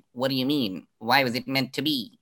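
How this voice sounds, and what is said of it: Kathryn Janeway impression. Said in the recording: “that's my Catherine Janeway impersonation”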